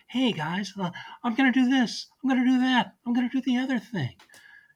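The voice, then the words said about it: Breathy imitation of another person's voice. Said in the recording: “he's got Biden's rhythms down... he's got that sort of breathiness that Biden has... I'm doing a mediocre impression of Dana Carvey's much better impression”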